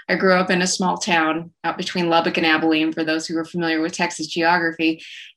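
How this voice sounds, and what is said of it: West Texas accent. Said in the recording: “I grew up in rural West Texas, as you can probably tell by my accent.”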